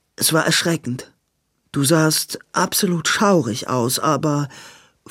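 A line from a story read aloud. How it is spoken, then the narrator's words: Hesitant. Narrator (German): fuhr zögernd fort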